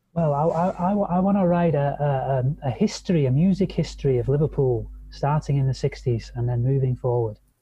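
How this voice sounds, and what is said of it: Liverpool English accent. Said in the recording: “I really like that accent ... I'm a proud Liverpoolian from the northwest of England.”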